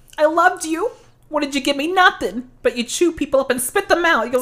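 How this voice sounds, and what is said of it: Character voice impersonation. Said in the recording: “That was a very good Columbia impersonation.”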